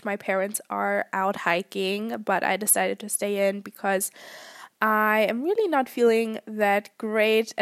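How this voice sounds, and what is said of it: Voice sounds unwell. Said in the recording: “I actually got sick ... that's also why my voice is how it is right now”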